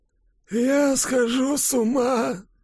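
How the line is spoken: Groaning. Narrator (Russian): простонал Кулькин

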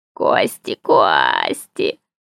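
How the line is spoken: Purring spider. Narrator (Russian): промурлыкал паук

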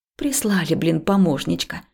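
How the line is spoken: Mutter. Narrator (Russian): пробормотала я

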